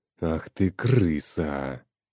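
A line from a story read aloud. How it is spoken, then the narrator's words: Hiss. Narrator (Russian): Прошипел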